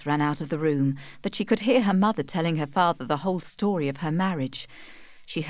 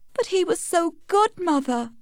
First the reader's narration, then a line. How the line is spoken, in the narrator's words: cried Tess